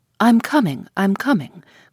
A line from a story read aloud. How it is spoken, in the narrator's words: cried the voice from behind the clump of dwarf trees